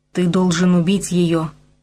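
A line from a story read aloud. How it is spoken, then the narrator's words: Hiss. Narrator (Russian): прошипел Усем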